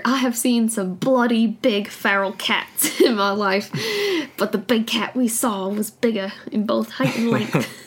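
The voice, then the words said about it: Put-on accent, admittedly bad. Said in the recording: “Nice accent. ... I have such a bad accent.”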